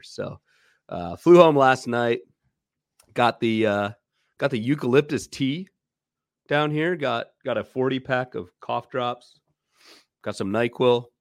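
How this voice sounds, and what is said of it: Sick-sounding voice. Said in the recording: “You can probably all hear it in my voice already at this point... got the flu on New Year's and haven't really gotten much better”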